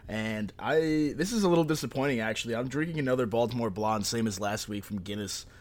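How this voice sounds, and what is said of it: Congested voice from a cold. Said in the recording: “as you might be able to hear in my voice, I'm kind of fighting off a cold right now”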